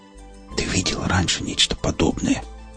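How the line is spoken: Awed whisper. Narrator (Russian): Шепотом произнес механик, словно боясь спугнуть наваждение

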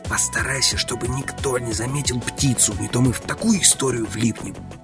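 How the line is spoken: Close whisper in ear. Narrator (Russian): Приблизив губы к его уху, прошептал

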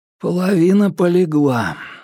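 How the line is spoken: Dejected voice. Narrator (Russian): ответил Ньют упавшим голосом

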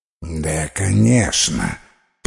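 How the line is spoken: Muttered. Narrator (Russian): пробормотала Терифика

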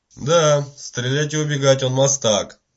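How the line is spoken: Gloomy agreement. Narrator (Russian): мрачно согласился Питер

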